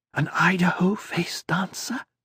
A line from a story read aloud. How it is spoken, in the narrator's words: Lusail whispered